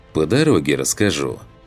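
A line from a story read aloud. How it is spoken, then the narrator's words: Smirking grunt. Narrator (Russian): хмыкнул я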